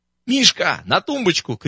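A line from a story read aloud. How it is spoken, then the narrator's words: Shouting. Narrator (Russian): крикнул сушилки Егоров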